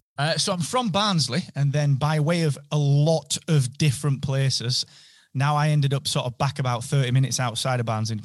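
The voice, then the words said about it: Northern English accent. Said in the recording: “that fantastic North British accent,”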